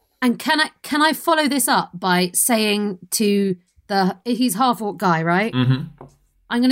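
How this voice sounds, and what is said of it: Usual voice. Nothing is said of it.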